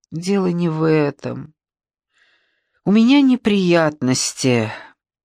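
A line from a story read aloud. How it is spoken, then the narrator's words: Suddenly trembling voice. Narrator (Russian): Неожиданно дрогнувшим голосом проговорила я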